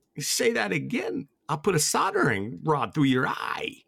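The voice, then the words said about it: Imitates another person's voice. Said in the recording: “that's pretty good. That's a pretty good impression. ... It's not great.”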